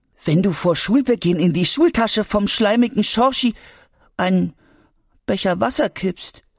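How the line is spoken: Sad. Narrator (German): sagte Albi traurig

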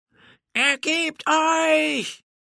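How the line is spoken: Roared again. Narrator (German): brüllte Felipe noch einmal

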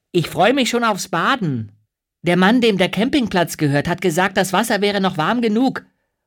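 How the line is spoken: Called over shoulder. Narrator (German): ruft Maja über die Schulter zurück

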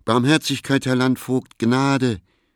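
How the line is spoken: Pleading cry. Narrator (German): rief

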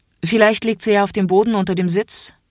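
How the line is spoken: Impatient, stern voice. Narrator (German): sagt die Kontrolleurin jetzt etwas ungeduldig und mit strenger Stimme

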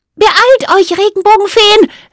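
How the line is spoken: Called out. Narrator (German): rief sie

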